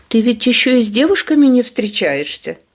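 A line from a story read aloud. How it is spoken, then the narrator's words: Laughing. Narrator (Russian): рассмеялась Кенди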